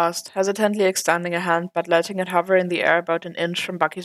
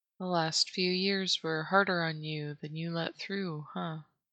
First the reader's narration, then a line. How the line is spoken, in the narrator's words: Clint asked quietly